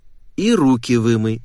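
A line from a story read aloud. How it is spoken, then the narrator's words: Plain. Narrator (Russian): сказала мама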